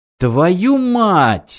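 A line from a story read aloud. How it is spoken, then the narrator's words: Exclamation. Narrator (Russian): воскликнул Мартин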